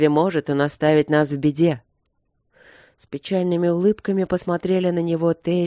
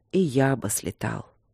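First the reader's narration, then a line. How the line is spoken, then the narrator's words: Low muffled rumble. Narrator (Russian): глухо пророкотал Нории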